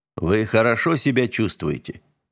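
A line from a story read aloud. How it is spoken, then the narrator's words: Plain. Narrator (Russian): спросил он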